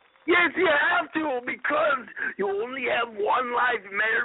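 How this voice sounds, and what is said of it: Usual voice. Nothing is said of it.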